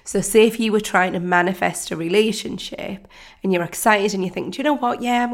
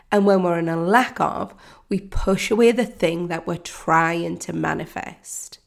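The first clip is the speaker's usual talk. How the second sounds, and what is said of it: Slow, deliberate speech. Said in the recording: “saying that slowly”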